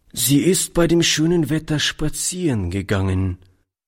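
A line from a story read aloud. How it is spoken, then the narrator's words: Plain. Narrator (German): antwortete Oliver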